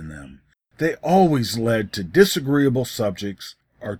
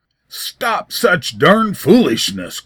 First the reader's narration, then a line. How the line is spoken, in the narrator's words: growled David